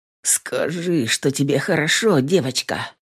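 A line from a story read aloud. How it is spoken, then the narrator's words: Muffled moan. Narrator (Russian): глухо простонал он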